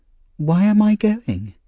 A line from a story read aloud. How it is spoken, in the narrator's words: he asked Fagin anxiously